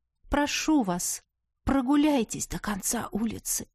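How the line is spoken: Whisper. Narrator (Russian): Последние слова я прошептала

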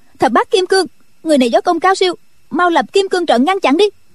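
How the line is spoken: Shouted command. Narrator (Vietnamese): Triệu Mẫn quát lên

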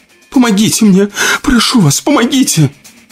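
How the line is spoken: Tearful wailing. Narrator (Russian): Сквозь слезы причитала она

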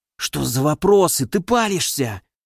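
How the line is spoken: Hissing into comlink. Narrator (Russian): прошипел Кайто в комлинк

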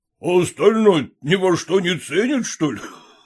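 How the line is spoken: Laughing. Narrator (Russian): засмеялся Холмогоров

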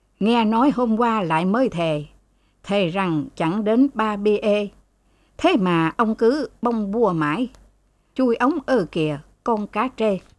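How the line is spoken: Raised voice. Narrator (Vietnamese): Ông Hạc Thần lên giọng

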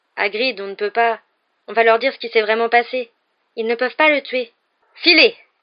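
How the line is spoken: Fierce. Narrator (French): dit Hagrid d'un ton féroce

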